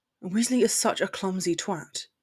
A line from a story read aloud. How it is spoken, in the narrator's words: he muttered